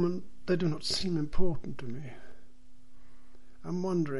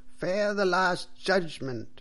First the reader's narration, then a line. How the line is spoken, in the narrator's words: cried the priest loudly and angrily